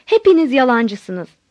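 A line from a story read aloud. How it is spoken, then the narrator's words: Shouting. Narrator (Turkish): diye bağırdım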